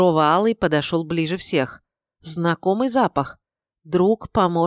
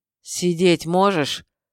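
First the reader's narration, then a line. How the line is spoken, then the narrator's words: Changed, growling voice. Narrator (Russian): В изменившемся голосе перекатывалось рычание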